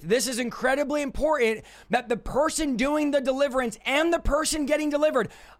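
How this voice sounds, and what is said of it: Loud shouting preacher delivery. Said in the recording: “I can't shout this enough. Listen, my veins are popping out because I'm shouting.”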